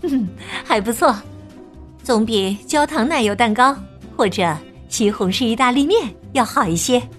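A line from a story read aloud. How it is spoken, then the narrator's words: Smiling. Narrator (Chinese): 妈妈笑了笑说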